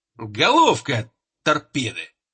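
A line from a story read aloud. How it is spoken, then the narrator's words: Angry joke. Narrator (Russian): зло пошутил командир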